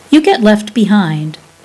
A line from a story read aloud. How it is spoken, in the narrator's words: Mummy said sharply